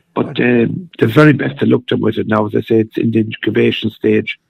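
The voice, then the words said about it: Slightly hoarse voice. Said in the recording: “My voice is a little bit hoarse at the moment.”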